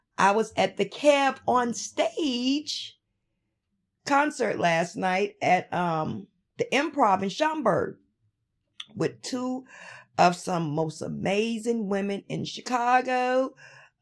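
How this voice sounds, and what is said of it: Raspy, slightly hoarse voice. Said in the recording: “my voice might sound a little raspy ... your girl's voice is a little bitter”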